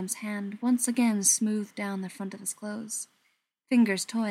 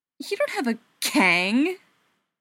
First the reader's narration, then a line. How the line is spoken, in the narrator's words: Tommy snorted